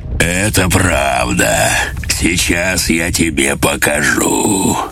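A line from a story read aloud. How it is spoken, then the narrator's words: Pleased deep bass. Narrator (Russian): с удовольствием ответил басом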